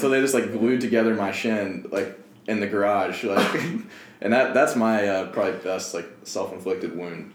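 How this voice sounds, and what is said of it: Kentucky accent. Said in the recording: “I think your Kentucky accent came out a little more over the course of that story.”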